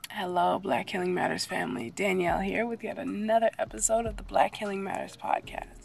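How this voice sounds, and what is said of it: Sick, unwell-sounding voice. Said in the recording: “As you may hear from my voice, I'm not quite back to 100%... allergies or a virus... my voice sounding like this”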